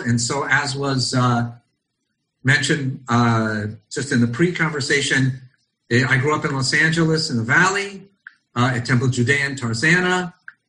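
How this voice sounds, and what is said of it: Non-Israeli accent. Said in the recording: “You can all hear from my accent that I probably was not born in Israel”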